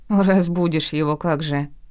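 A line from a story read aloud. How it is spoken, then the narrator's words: Angry grumble. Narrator (Russian): проворчала я, жутко злая на себя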